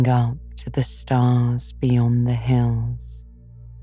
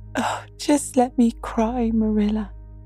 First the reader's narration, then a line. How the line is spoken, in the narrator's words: sobbed Anne